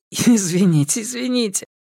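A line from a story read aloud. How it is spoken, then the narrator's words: Giggling, apologetic. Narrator (Russian): она не могла перестать хихикать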